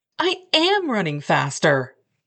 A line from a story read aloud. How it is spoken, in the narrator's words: I snapped